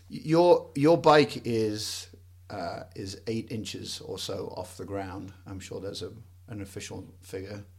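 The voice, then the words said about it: English accent. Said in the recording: “where is your accent from? And it's from England.”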